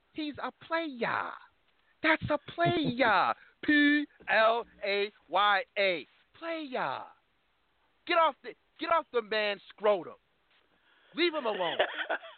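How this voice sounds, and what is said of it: John Witherspoon impression. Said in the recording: “do my best John Witherspoon impersonation.”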